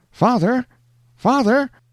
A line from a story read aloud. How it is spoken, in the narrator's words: exclaimed a piercing cry from out of the mist